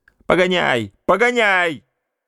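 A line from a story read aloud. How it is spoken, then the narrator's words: Shout. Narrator (Russian): крикнула она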